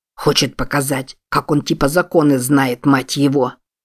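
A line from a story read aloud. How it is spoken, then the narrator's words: Grumbling. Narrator (Russian): проворчал кто-то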